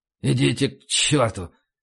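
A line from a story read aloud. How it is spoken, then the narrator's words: Mutter. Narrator (Russian): пробормотал Макнамара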